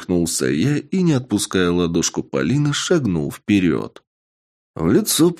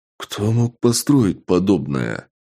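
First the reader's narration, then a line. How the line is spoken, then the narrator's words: Awed exhale. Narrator (Russian): Выдохнул я, и на меня накатила необычная волна восхищения и преклонения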